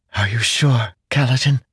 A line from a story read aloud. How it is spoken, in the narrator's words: Syl whispered